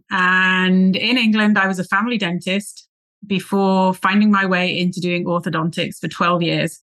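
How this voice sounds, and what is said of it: English accent. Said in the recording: “I'm originally from England, which is where the accent is going to come from”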